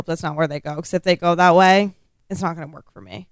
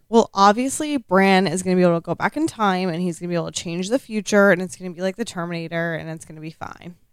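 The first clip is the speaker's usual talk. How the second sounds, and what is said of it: Sarcastic delivery. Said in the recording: “Oh, I'm being sarcastic.”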